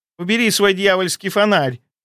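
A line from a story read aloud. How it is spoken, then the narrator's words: Shrill girlish squeal. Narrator (Russian): взвизгнула в ответ девичьим голоском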